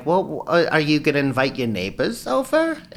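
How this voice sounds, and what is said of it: Put-on German-sounding accent. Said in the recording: “Is she German? ... she doesn't even have an accent, but it's the only way I can describe her”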